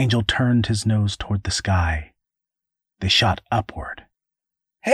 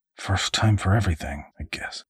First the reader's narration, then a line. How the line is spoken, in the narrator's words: he muttered